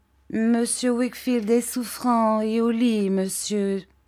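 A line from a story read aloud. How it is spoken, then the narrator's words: Plain. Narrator (French): dit-il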